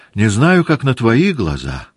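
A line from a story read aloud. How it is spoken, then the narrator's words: Joyful princess answering. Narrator (Russian): отвечала радостно княжна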